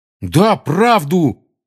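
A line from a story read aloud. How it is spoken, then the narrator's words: Angry exclamation. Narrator (Russian): сердито воскликнул Рон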